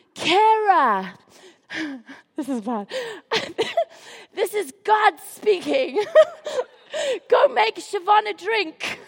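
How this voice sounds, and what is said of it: Put-on voice of God. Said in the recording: “put on my best God voice”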